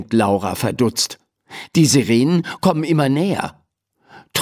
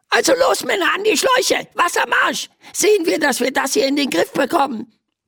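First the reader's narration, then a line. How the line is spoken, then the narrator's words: Squeaky voice from below. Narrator (German): piepst eine Stimme von unten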